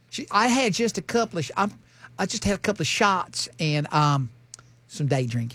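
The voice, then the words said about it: Put-on woman's voice. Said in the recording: “that accent? ... I'm just doing a chick voice.”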